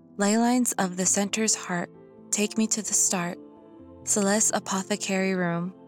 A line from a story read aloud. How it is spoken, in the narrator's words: said softly